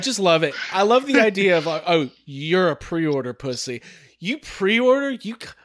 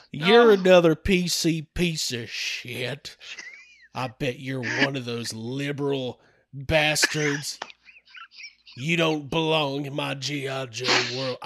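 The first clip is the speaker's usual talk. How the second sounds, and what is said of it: Put-on Southern US accent. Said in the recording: “please read that in a southern accent.”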